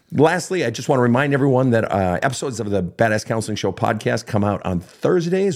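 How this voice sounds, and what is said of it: Croaky, partly lost voice. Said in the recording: “if my voice sounds funny, it is funny... I lost my voice, but it's coming back. So if I sound a little croaky”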